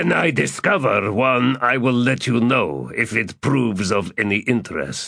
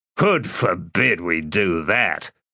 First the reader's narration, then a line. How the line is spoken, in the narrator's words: snarled Ansi